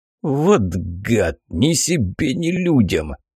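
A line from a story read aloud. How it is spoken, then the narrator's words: Groaning. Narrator (Russian): простонал паук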